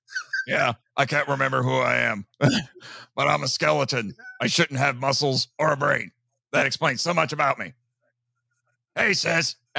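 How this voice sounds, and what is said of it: Character voice with attempted Texas twang. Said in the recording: “halfway decent. That's a halfway decent impression ... I can't quite get the Texas twang that voice actor has ... a very distinct, like, either Texas or Tennessean twang to the voice he uses”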